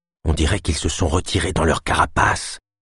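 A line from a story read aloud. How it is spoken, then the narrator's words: Murmur. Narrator (French): murmura-t-elle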